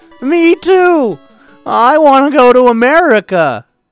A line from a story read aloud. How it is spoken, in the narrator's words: Jack yelled over the beeping and buzzing of the video games